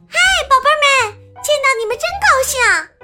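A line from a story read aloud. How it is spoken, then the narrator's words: Excited shout. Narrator (Chinese): 他忍不住兴奋的喊道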